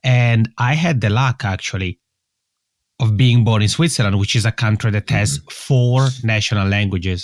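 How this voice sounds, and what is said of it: Swiss Italian accent in English. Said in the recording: “how people may guess from my accent, English is not my mother tongue... I'm originally from the Italian speaking part of Switzerland”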